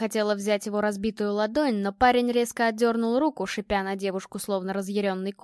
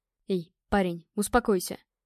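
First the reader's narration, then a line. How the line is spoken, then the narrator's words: Whisper into ear. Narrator (Russian): наклонился к уху и прошептал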